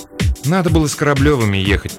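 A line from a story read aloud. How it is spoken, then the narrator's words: Grumbling. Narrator (Russian): проворчала Маринка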